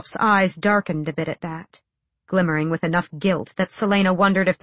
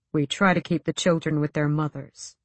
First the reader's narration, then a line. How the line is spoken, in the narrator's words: he said quietly